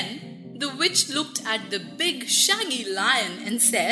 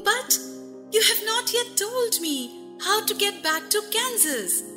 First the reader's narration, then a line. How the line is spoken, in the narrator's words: Dorothy exclaimed